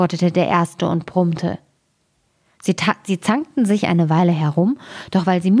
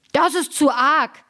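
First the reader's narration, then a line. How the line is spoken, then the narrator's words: Frenzied shout. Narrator (German): schrie der, sprang wie ein Unsinniger auf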